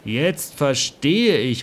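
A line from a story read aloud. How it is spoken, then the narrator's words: Relieved exclamation. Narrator (German): rief er erleichtert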